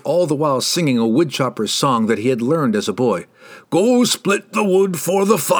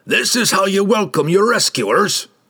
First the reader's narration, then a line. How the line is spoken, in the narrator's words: Brunner barked at them